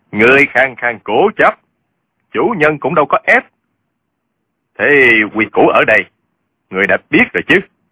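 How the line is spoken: Cold male voice. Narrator (Vietnamese): Giọng một hán tử lạnh lùng nói

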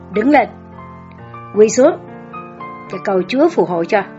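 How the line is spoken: Loud, threatening. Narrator (Vietnamese): Với một giọng lớn tiếng và đe dọa, bà Nhất nói với tôi

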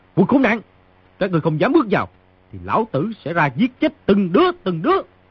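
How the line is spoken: Continued shouting. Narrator (Vietnamese): người trong phòng quát tiếp

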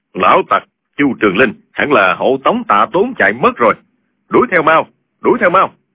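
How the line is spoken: Deep hoarse voice. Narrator (Vietnamese): một giọng ồm ồm nói

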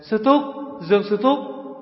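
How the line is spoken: Panicked scream. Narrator (Vietnamese): Lãnh Thu Hồn thất thanh kêu lên

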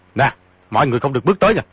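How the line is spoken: Shouted. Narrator (Vietnamese): quát

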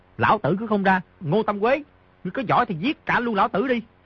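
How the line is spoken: Moved, raised voice. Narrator (Vietnamese): Di Tiểu Bảo rất cảm động, cao giọng nói

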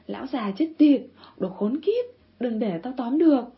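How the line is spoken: Bellowing again. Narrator (Vietnamese): Hết cả từ, gã ngừng lại rồi lại gào tiếp

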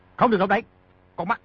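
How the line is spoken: Shouting. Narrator (Vietnamese): Di Tiểu Bảo quát

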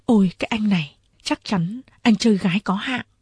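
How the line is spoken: Quiet, woman. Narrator (Vietnamese): Nàng khẽ bảo tôi

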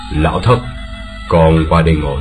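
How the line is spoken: Sighing. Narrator (Vietnamese): Điền Bất Dịch thở dài

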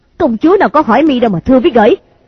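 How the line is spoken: Angry. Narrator (Vietnamese): Thôi Mama tức giận lòng lên

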